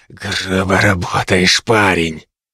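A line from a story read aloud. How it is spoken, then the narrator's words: Hissed in face. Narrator (Russian): Феликс прошипев в лицо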